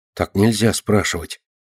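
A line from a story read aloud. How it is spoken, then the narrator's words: Embarrassed little mouse. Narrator (Russian): смущается мышка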